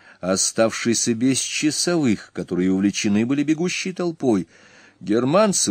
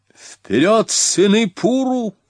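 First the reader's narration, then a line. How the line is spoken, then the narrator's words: Shout. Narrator (Russian): крикнул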